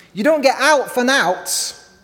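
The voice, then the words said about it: Yorkshire accent. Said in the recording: “in Yorkshire, you might hear this phrase ... My mum is from Yorkshire, so I can sort of do the accent.”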